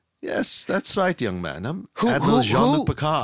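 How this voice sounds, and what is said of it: Mild impression of a character's voice. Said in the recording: “You're doing a mild impression. ... Who is that character?”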